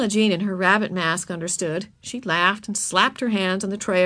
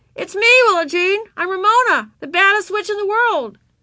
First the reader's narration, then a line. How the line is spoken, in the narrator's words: Ramona called out to her